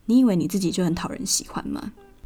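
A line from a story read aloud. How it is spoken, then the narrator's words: Cold. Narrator (Chinese): 冷冷的对老板说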